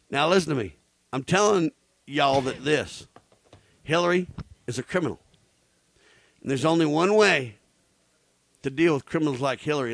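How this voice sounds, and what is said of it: Put-on Southern redneck accent. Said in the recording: “pick up a Southern accent ... go redneck on you”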